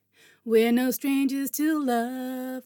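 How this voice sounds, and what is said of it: Singing in an American accent. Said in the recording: “There's that fucking American accent again.”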